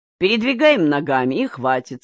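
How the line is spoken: Laughing. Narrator (Russian): смеялся Аким

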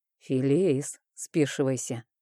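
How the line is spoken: Barely audible, very quiet. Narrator (Russian): так тихо произнес он, что я не расслышала

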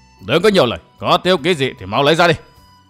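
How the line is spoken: Arrogant yelling. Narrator (Vietnamese): Cổ Mạc Phong càng thêm thỉnh khí mà quát tháo

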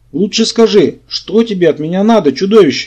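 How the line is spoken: Sudden scream. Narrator (Russian): неожиданно завопила королевна

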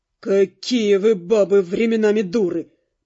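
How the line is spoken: Dandy, through gritted teeth. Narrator (Russian): процедил пижон

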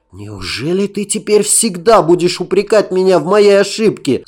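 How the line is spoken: Pained exclamation. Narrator (Russian): с болью воскликнул он

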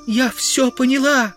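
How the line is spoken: Anguished young woman's cry. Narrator (Russian): воскликнула, корчась от мучений, девушка

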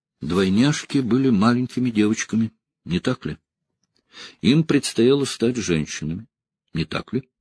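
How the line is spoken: Even, flat voice. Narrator (Russian): Он ровным голосом сказал

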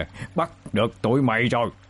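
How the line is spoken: Laughing loudly. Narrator (Vietnamese): Ông ta cười lớn

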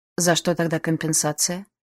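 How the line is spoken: Dry question. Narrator (Russian): сухо спросила я

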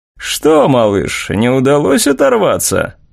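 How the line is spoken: Mocking drawl, young man. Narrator (Russian): насмешливо протянул один из парней

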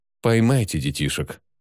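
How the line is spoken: Tall man, gentle tone. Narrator (Russian): Высокий мужчина, который, видимо, был главным, ласково произнес

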